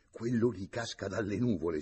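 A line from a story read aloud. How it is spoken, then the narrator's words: Wife's hurried whisper. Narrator (Italian): sussurrò in fretta la moglie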